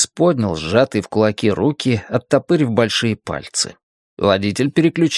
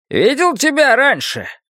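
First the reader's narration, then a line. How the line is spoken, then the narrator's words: Shouting over engine roar. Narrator (Russian): прокричал водитель, перекрывая рев мощного двигателя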